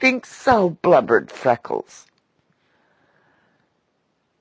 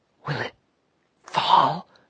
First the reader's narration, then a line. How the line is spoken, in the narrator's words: whispered the lobbyist